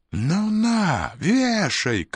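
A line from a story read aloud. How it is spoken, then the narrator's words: Breathless shouting, farmhand. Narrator (Russian): кричал, задыхаясь, батрак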